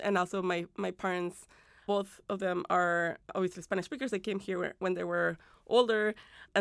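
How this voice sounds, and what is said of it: Spanish-accented English. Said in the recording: “You can hear in my English accent, accented English, right? That English isn't my first language ... my first language is Spanish”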